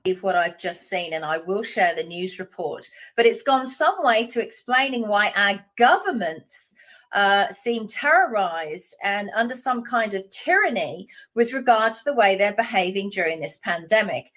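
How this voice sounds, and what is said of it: Woman with Australian accent. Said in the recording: “I love a woman with a good Australian accent.”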